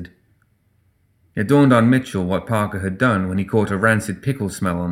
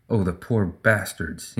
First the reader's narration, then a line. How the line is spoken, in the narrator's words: he muttered